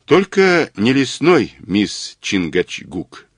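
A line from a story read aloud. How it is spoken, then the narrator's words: Plain. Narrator (Russian): сказал Мазур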